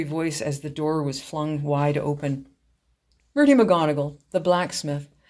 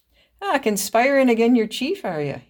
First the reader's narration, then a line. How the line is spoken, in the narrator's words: chuckled